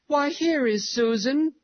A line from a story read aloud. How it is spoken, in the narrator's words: the girls cried